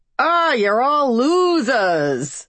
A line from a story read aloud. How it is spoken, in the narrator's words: the real Hillary intoned